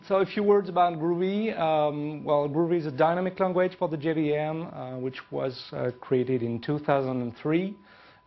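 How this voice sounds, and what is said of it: French accent in English. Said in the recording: “It's a different kind of accent. It's a French accent because I'm French”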